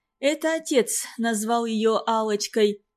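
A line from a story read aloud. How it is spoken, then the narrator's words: Explaining, heavy sigh. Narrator (Russian): объяснила Надежда и тяжело вздохнула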